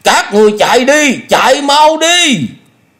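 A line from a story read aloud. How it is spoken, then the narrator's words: Loud shout. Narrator (Vietnamese): miệng hét lớn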